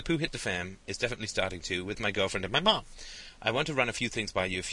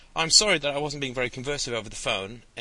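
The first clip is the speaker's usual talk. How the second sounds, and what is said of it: Put-on British accent. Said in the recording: “I'm going to read in a British accent because I feel like it.”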